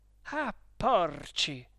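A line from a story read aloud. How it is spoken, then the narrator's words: Exclaiming. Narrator (Italian): esclamò Perpetua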